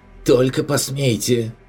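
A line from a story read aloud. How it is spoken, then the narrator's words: Shrieked. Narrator (Russian): взвизгнул Ратман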